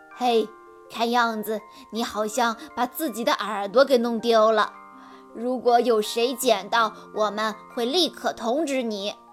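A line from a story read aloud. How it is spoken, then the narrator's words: Mocking smirk. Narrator (Chinese): 坐在写字台后面的男人一脸坏笑地对没有耳朵的兔子说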